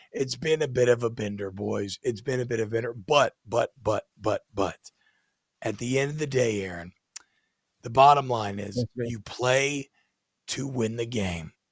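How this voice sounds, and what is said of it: Awful-sounding, worn-out voice. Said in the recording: “my voice is awful. I I, I mean, there, there, there's nothing to be done about this.”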